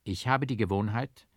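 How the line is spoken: Forced calm reply. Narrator (German): erwiderte ich so ruhig, als es mir nur möglich war

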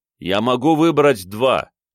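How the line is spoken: Shouting into emptiness. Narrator (Russian): крикнул в пустоту

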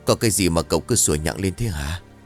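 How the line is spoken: Tired grumbling. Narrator (Vietnamese): ông chấp miệng xoa đầu của con chó rồi đầm bầm bằng giọng mệt mỏi

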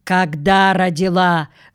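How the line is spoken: Stern question, woman. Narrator (Russian): строго спросила женщина

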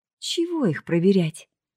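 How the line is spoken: Sighing. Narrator (Russian): вздохнул первый

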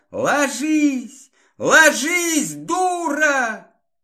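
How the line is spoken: Fierce yell. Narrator (Russian): люто заорал

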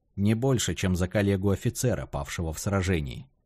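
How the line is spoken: Plain. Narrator (Russian): ответил Валерий

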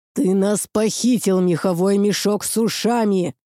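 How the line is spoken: Dog's growl. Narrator (Russian): прорычал Лёха пёс

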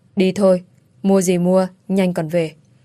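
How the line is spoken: Cold, frowning. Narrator (Vietnamese): Kiệt chau mày, lạnh lùng nói với cái An

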